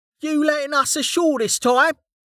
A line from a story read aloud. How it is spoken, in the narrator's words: Kettle shouted from the back